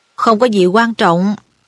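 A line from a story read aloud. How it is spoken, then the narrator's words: Cold reply. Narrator (Vietnamese): Thầy Snape đáp lạnh lùng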